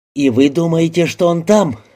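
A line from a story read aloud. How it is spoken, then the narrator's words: Exclaimed. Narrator (Russian): воскликнула Трой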